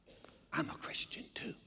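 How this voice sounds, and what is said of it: Whispered line. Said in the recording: “Why are we whispering?”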